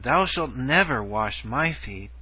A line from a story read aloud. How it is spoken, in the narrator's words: With great emphasis he exclaimed